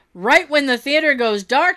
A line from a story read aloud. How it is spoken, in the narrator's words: he yells out